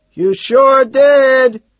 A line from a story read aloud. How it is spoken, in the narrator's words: I scream